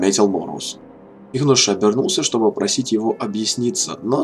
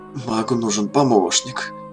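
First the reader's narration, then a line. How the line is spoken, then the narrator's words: Muttered. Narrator (Russian): пробормотал Кангар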